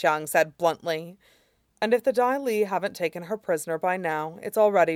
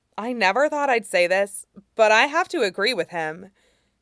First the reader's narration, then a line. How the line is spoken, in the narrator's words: Katara said firmly